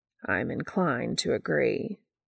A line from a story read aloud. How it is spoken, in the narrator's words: Castiel murmurs dryly